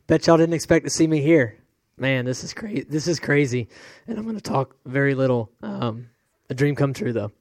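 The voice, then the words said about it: Hoarse, nearly lost voice. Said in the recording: “He sounded awful after the race... My voice is gone, by the way, so this is going to come out bad... I was sick last week”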